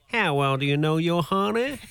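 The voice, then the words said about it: Put-on accent, fairly convincing. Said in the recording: “Now do it with the accent. ... Actually, the accent's pretty good.”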